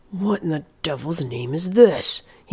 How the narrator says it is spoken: he muttered

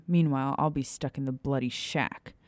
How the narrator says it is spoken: Remus muttered bitterly, a growl escaping his throat

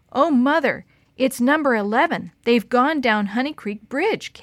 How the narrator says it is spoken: Kate shouted

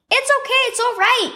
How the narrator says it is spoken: she shouted

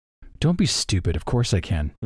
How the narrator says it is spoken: Iyatil whispers back

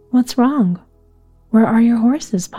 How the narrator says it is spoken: Pa asked

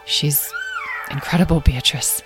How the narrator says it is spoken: he said softly

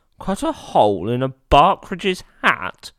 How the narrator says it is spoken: exclaimed

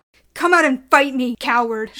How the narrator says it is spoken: She shouted

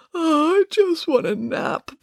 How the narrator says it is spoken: protested sleepily

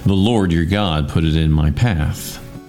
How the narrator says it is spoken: Jacob replied

